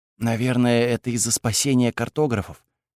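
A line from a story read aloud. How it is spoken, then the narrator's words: Whisper. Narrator (Russian): прошептала Кайла Сише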